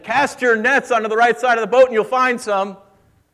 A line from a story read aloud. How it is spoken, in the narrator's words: the stranger shouted again